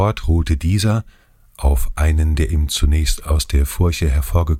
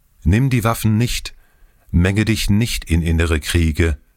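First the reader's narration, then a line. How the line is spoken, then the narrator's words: Warning call. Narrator (German): einer von dem erdentsprossenen Volke rief ihm zu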